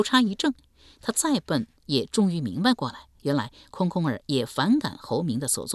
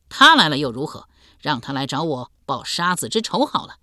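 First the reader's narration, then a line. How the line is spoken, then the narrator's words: Cold sneering laugh. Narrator (Chinese): 连声冷笑道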